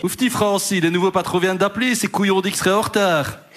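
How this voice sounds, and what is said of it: Poor attempt at Liège accent. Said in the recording (French): “C'est quoi cet accent de Liège? ... je ne sais pas faire l'accent liégeois ... C'est entre Liège et Bruxelles.”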